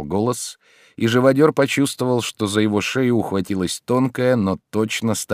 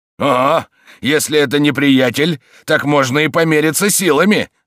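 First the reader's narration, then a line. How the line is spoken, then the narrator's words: Shouting. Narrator (Russian): закричал живодер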